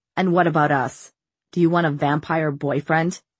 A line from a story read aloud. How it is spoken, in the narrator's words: He laughed bitterly